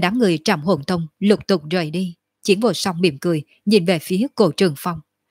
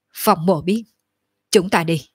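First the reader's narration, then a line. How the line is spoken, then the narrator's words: Cold suppressed anger. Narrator (Vietnamese): trong lòng Phong Tiếu Thiên rất giận dữ, nhưng cũng chỉ có thể nén xuống, hừ lạnh một tiếng nói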